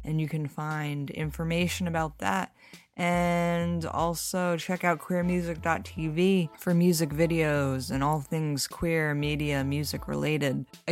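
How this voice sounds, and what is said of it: Strained, slightly odd-sounding speech. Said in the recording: “it was kind of a struggle for me to talk. As you can tell, I sound a little weird.”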